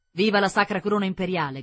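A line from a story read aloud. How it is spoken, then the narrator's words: Shouting. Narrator (Italian): gridò Curzio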